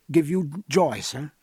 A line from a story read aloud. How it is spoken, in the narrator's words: said Philip in a trembling voice